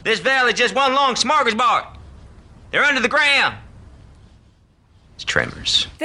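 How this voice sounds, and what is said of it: Kevin Bacon impression. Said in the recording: “I do a Kevin Bacon impression.”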